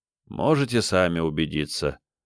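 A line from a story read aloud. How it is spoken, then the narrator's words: Tired speech. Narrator (Russian): устало сказал управляющий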